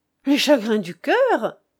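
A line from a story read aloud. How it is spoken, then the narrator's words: Exclaiming. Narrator (French): s'écria le comte d'Erfeuil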